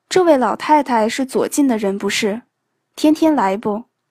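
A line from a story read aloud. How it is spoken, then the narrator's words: Plain. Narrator (Chinese): 粥厂的人说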